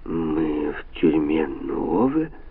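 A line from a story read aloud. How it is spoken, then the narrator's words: Barely audible, subdued question. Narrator (Russian): еле слышно спросил он, придавленный тишиной вокруг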